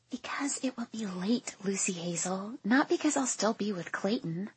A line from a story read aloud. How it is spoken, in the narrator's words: I whisper, hoping the man waiting just behind me doesn't hear